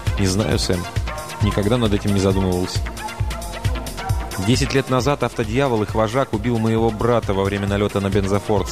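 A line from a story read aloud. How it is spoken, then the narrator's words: Plain. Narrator (Russian): сказал Мердок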